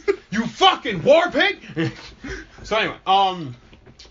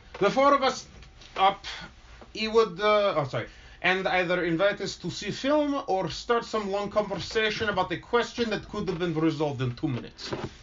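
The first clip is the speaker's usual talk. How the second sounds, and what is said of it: Put-on accent. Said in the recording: “I'm just going to do it in an accent”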